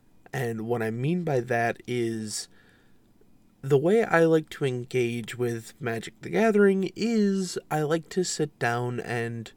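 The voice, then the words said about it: Congested, sinusy voice. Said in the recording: “I do apologize for my voice today. I've been having some sinus issues with the weather”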